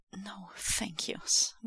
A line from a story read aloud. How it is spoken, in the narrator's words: Wei Wuxian whispers, almost against Lan Wangji's lips